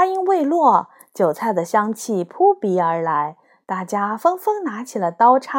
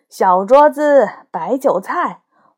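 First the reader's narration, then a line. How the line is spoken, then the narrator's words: Shouting. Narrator (Chinese): 高个儿 喊道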